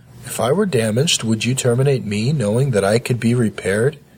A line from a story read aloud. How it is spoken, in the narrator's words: He asked calmly